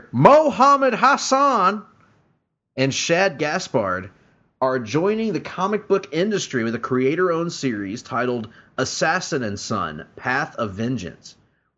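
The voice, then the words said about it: Jim Ross announcer impression. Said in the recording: “I'm going to put on my best JR voice here”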